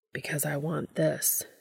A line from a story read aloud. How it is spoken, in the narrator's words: he murmurs